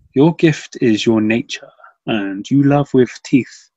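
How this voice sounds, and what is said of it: Affected poetry-reading voice. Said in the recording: “Poetry voice.”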